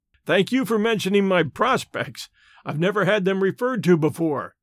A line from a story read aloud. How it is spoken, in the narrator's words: laughed Stoddard